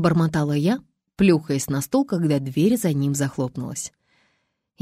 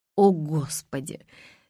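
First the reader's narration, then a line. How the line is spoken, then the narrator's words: Muttered through clenched teeth. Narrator (Russian): стиснув зубы, пробормотала я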